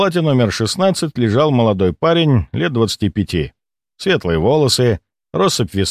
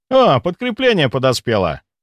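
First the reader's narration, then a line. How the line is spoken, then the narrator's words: Cheerful exclamation. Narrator (Russian): весело воскликнул он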